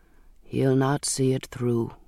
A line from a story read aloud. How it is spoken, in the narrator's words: he said softly